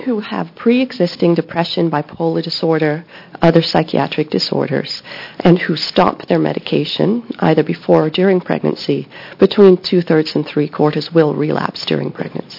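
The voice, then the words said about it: Voice with a slight cold. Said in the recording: “I'm really struggling hearing you. ... I have a little cold,”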